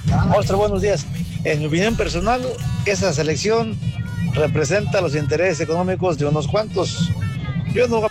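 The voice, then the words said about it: Mexican Spanish accent. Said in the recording (Spanish): “este güey sí es 100%. Este yo le creo porque sí tiene el acento mexicano”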